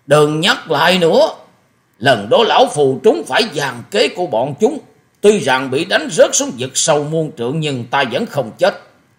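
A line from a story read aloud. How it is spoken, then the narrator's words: Interrupting shout. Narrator (Vietnamese): Thất độc thần kiếm dục hét lên một tiếng ngắt lời của Hoa Sĩ Kiệt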